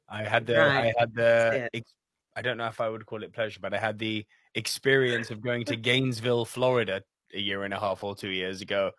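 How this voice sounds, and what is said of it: British accent. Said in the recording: “I love your accent ... they just fall in love with the British accent”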